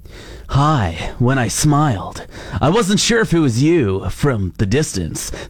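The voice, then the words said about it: Exaggerated sensual reading voice. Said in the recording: “in my most sensual voice ever”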